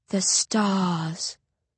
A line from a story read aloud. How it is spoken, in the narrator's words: the others echo dreamily